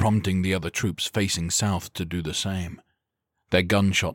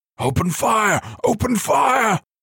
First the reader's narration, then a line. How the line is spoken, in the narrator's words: Corva screamed in panic